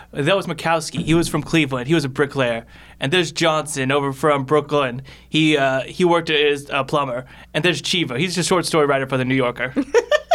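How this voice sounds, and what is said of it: Put-on accent. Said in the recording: “Great accent, by the way. I think you should keep that in your regular life.”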